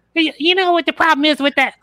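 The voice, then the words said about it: Imitates another person's voice. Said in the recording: “That's a pretty good Bill Burr impression. ... That's pretty good.”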